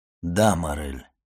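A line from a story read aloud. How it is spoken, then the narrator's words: Firm, calm voice. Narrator (Russian): сказал твердым голосом Монте-Кристо, чье спокойствие странно контрастировало с волнением Максимилиана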